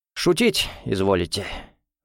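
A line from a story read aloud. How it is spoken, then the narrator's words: Gloomy reply. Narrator (Russian): мрачно ответил Гуров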